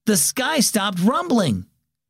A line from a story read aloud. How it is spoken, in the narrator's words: Aiden exclaimed suddenly